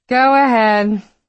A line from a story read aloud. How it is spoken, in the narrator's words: she called out